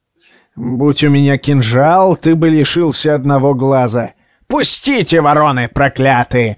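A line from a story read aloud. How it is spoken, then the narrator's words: Furious yell. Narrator (Russian): заорал он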